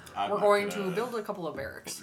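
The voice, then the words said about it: Barack Obama impression. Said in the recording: “do an Obama voice? ... Yeah, well, that's pretty good.”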